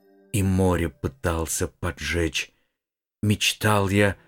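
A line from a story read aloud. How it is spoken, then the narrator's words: Uncertain whisper. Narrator (Russian): прошептал неуверенно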